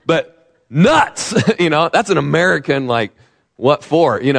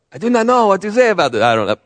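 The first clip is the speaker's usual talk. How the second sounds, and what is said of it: Bad put-on German accent. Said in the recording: “the Germans were like ... Horrible accent.”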